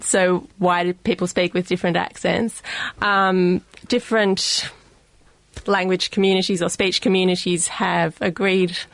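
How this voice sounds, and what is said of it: Australian accent. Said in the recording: “little sort of twang that says down under ... my Australian accent”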